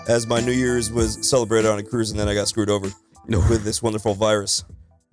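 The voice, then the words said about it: Unusually deep, rough sick voice. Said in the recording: “My voice is a little whacked out ... Sound like the Cuban Barry White.”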